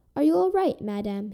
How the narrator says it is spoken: asked nervously

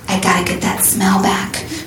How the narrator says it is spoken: she whispered to herself, like the wild teenage beast that she had become

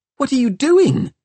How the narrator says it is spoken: squeaked Tom

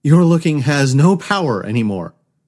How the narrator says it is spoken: Lachey said triumphantly

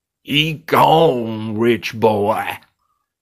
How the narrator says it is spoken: the face sneered

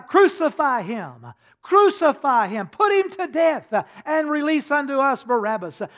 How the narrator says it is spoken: the mob, they cried out

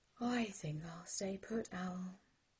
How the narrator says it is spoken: slurred Sloth

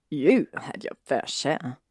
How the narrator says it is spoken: Draco murmured

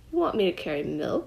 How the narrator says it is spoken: Hashmakaka sputtered in shock

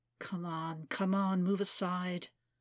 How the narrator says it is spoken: the woman muttered in English

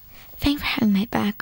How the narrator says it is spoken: whispered Karen

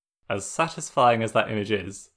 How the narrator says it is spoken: Zuko said with a small laugh

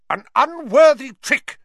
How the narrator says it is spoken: she was shouting

